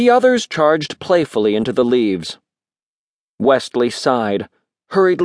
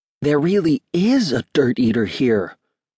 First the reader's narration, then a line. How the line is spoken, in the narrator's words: whispered Wesley